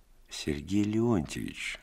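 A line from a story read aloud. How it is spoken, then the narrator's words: Affectionate. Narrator (Russian): ласково сказал я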